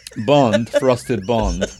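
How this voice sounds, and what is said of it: Failed British accent, sounded Italian. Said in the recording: “Did you suddenly get Italian? What was that? Was that supposed to be British? ... It was supposed to be British, sorry.”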